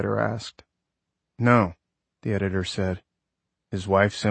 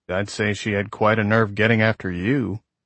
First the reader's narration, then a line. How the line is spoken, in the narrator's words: the agent grunted